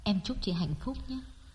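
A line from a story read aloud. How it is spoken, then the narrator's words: Near whisper. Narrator (Vietnamese): Đông nói nhỏ như thì thầm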